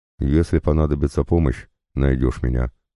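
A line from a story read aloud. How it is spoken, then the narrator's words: Plain. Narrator (Russian): сказал он тогда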